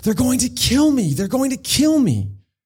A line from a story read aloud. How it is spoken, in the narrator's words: scream